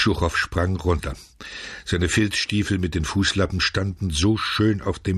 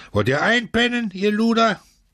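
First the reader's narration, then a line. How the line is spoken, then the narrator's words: Shouting. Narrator (German): Der Barackenälteste schrie es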